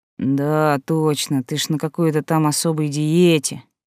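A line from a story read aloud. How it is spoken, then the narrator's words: Sour drawl. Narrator (Russian): кисло протянул Иван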